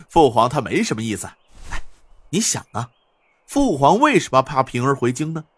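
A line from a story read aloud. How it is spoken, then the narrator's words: Smiling. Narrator (Chinese): 晋王笑了笑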